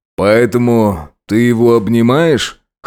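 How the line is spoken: Snorting. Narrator (Russian): хмыкнул полицейский

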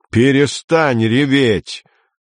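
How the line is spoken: Yelling. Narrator (Russian): заорал он на Амалию

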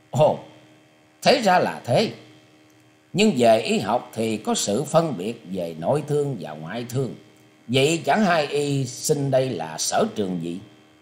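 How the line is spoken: Smiling. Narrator (Vietnamese): Lý Khánh Trung mỉm cười nói

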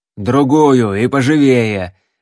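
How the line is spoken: Barked. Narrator (Russian): рявкнул стрелок

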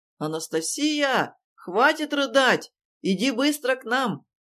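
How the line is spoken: Cat shouting from another room. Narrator (Russian): крикнул из комнаты кот

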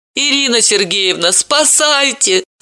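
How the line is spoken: Whining plea. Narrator (Russian): заскулила Далила

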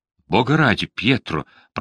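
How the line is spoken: Whisper. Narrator (Russian): прошептала она

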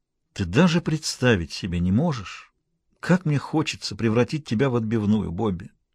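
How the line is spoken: Deeply heartfelt voice. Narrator (Russian): сказал он самым проникновенным голосом

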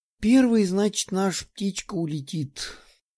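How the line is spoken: Sighing. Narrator (Russian): вздохнула пухленькая Любава

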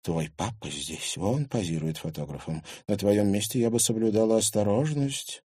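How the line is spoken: Quiet. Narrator (Russian): Марина тихо сказала сестре

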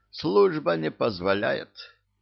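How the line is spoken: Guilty sigh. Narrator (Russian): виновато вздохнул

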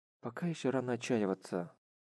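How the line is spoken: Whispered. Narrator (Russian): прошептал Харухира

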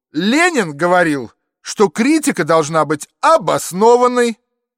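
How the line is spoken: Fairly loud shout. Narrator (Russian): довольно громко крикнул

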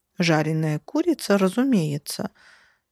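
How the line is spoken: Calm reply. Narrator (Russian): спокойно откликнулась та

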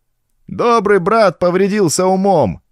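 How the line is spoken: Shouting. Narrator (Russian): кричал кто-то

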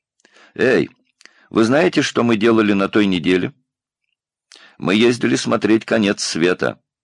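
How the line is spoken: Cheerful. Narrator (Russian): Ник весело сказал

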